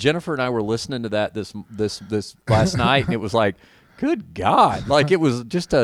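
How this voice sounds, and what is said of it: Usual voice. Nothing is said of it.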